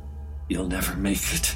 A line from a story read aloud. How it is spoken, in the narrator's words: the scab hissed